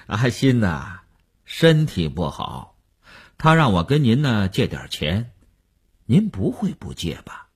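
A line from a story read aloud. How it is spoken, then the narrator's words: Chuckling, blunt. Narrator (Chinese): 那个人在电话里嘿嘿地笑了，直截了当地说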